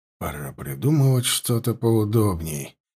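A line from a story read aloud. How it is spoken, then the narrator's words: Muttered. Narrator (Russian): пробормотал он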